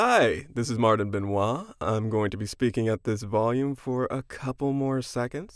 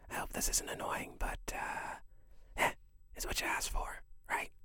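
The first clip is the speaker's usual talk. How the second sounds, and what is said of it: Whispering. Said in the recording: “just doing a little whispering.”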